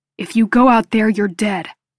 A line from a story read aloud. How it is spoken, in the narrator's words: he growls